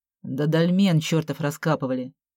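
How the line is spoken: Grumbling. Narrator (Russian): буркнул Виталя

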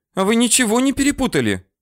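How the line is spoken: Indignant clamor of women. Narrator (Russian): Сразу несколько женщин возмущенно загалдели

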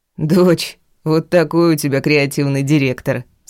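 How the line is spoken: Laughing, father. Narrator (Russian): смеялся папа

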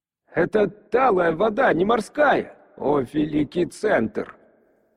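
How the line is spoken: Much clearer voice. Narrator (Russian): голос сержанта Хрипоногера, прозвучавший намного яснее, чем когда я слышал его в первый раз

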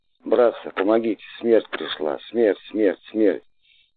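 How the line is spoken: Sick person's hoarse cry. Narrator (Russian): Хрипло вырывалось из груди больного

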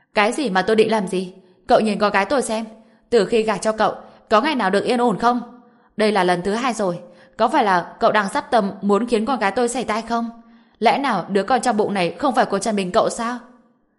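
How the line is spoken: Unreasonable, domineering shouting. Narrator (Vietnamese): Bà ta ngang ngược vô lý hét lên

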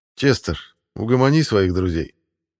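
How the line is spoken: Lazy words through teeth. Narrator (Russian): лениво процедил Ярослав

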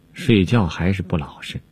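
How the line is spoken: Sighing. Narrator (Chinese): 宝玉叹道

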